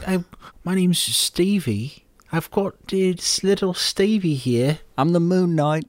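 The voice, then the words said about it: High-pitched funny cute accent. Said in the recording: “Oscar Isaac's funny accent was pretty cute ... his accent was interesting ... talking in a high register ... a very cute accent”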